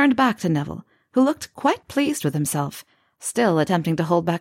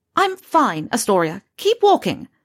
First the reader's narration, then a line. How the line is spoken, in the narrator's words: Pansy snapped at her